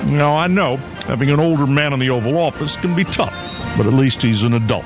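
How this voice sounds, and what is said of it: Barack Obama impression. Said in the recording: “my Barack Obama impression”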